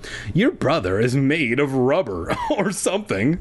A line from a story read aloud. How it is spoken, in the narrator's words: Zach laughed